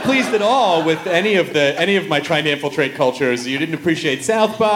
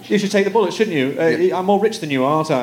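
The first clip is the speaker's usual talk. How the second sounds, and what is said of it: Put-on British accent. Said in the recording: “You did it well, but don't do it ... don't do a British accent to a professional British person”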